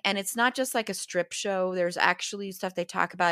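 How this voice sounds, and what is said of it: Slightly hoarse voice. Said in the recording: “my voice is still a little hoarse from that. I did completely lose my voice.”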